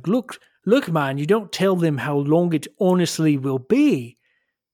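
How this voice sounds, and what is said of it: Put-on Scottish accent. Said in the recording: “Scottish accent”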